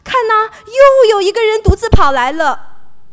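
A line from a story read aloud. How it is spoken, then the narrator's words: Watchman calling out. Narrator (Chinese): 守望的人 对守城门的人喊说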